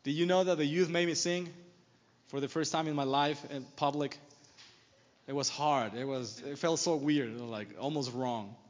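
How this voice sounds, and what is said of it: Norwegian accent. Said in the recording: “the Norwegian accent”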